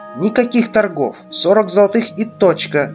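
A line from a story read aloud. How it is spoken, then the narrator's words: Sharp, curt reply. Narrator (Russian): резко ответила та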